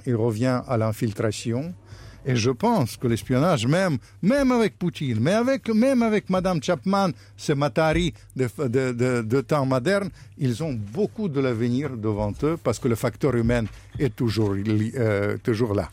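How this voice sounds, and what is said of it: Speaks French with a noticeable accent. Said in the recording (French): “mon accent ... c'est mon accent ... Qui fait partie du personnage”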